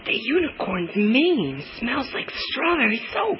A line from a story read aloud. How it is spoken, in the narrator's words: whispered to Madge